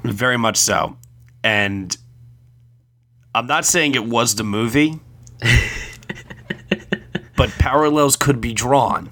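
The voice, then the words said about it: Sick, under-the-weather voice. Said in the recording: “hear it in my voice ... I am pretty darn sick right now while recording this ... it sounds like you're a little under the weather”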